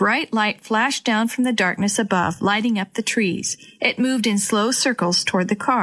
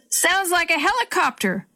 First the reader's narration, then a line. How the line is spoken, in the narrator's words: Grandpa yelled back